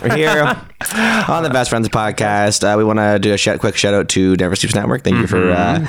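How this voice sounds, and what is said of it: Rough, sore-throated voice. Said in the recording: “when I have a sore throat, I sound sexier. ... he's got a sore throat here for episode 73.”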